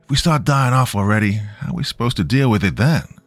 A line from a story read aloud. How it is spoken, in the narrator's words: Daniel sighed